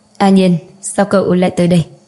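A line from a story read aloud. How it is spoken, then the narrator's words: Cold faint smile. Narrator (Vietnamese): Tống Du cười nhạt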